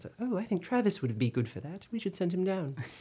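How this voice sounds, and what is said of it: Put-on British accent. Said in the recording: “she had a British accent.”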